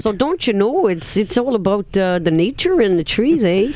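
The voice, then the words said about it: Put-on accent that sounds Irish. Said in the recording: “You sound Irish now.”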